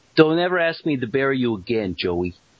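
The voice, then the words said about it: Put-on gangster-movie style accent. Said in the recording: “Do the accent right, by the way, this time... Sounds like he's trying to do Goodfellas or something.”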